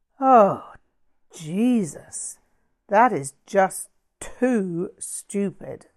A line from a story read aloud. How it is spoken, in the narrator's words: Stephanie groaned